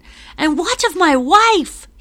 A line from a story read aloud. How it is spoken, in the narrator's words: shouts